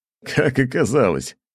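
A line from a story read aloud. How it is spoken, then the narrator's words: Giggling. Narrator (Russian): хихикнул Александр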